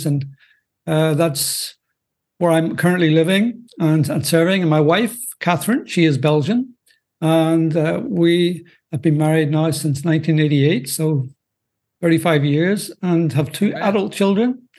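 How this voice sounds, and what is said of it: Northern Irish accent. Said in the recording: “as you may detect by my accent, I'm not from the U.S. I'm, in fact, originally from Northern Ireland”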